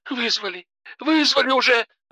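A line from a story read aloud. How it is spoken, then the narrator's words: Sobbing into phone. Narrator (Russian): рыдала Алена в трубку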